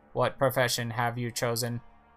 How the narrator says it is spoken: the robot's loudspeaker suddenly activates, and it says in an even, mechanical voice

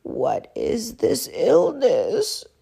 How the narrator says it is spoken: He croaked

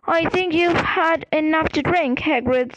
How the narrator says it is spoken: said Hermione firmly

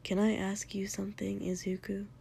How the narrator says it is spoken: Shoto said a little quietly

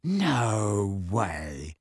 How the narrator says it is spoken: said George in a hushed voice

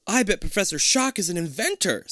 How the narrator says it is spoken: Stacy exclaims

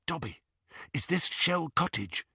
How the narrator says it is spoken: he whispered

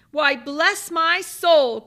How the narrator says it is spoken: cried Fred

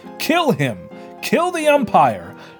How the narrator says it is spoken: shouted someone on the stand

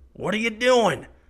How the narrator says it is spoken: Kip shouts over the gunfire

